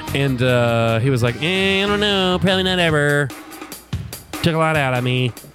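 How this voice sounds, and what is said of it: Impression of Aziz Ansari. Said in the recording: “That's a pretty good Aziz impression.”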